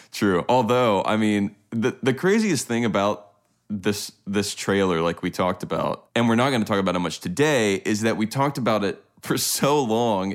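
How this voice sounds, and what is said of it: Deep, congested sick-sounding voice. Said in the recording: “You don't sound too good ... I came down with some brutal cold ... apologize for my voice going down a couple octaves today.”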